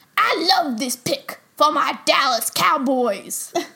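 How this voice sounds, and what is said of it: Imitates another person's voice. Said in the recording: “get ready for my Michael Irvin impression ... That was good. That was very good. ... that's my Michael Irvin impression”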